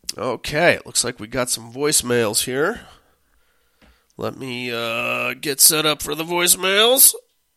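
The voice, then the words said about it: Hoarse, fading voice. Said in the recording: “I don't feel very well, and I'm rapidly losing my voice”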